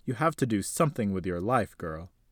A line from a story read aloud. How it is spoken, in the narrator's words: her grandfather said firmly with a raised voice